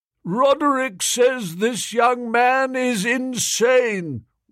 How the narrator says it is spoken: roared the prof

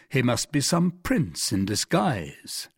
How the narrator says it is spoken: said the stranger coolly

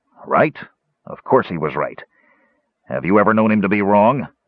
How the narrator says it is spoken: snapped

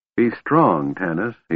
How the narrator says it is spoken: he said softly

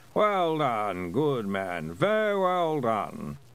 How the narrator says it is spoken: Someone said in a sleepy sort of voice

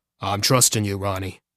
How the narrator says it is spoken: he said

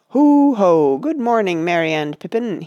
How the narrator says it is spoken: boomed

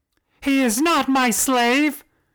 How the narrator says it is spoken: she screamed again

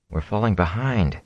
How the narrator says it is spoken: he murmured

